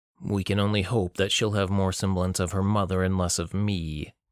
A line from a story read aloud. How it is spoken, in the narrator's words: Delcam growled